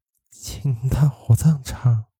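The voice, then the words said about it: Mournful, hoarse ghostly voice. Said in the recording (Chinese): “用凄惨而沙哑的声音说”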